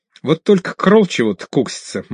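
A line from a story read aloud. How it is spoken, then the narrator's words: Laughing. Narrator (Russian): мастер рассмеялся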